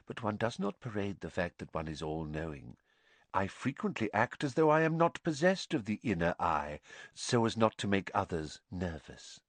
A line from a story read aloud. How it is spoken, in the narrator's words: she said quietly